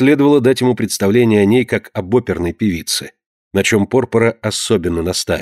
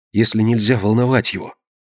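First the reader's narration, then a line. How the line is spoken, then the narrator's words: Whisper. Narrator (Russian): прошептала ему Консуэла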